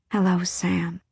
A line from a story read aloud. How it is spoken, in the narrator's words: she breathed onto the river breeze